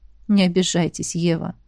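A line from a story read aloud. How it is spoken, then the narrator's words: Soft, slight smile. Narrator (Russian): мягко произнес сотрапезник, улыбаясь краешком губ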